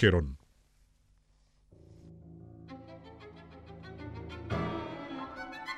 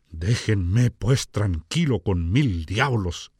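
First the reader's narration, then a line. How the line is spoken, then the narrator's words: Exclaimed. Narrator (Spanish): exclamó K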